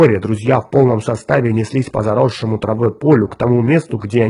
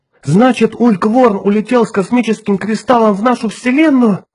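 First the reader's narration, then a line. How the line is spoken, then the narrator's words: Exclamation. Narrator (Russian): воскликнула Джоанна Рэндалл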